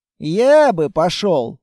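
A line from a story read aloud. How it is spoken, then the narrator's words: Sigh. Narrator (Russian): вздохнул Текс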